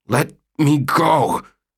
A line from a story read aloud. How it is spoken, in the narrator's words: gasped, pushing upward against her weight